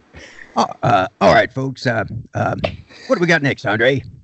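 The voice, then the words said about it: Uncanny impression of the host. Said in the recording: “do an impression of me ... it's uncanny”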